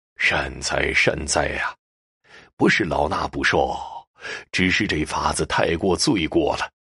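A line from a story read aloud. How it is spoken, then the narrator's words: Sighing, reluctant monk. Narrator (Chinese): 那僧人叹了口气，终究是松了口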